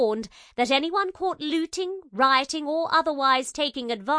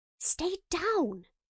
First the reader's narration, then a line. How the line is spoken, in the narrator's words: hissed